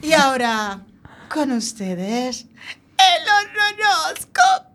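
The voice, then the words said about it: Spooky witch voice. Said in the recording (Spanish): “te tengo que calentar la voz ... A mí me da miedo cuando se pone así ... voz de bruja”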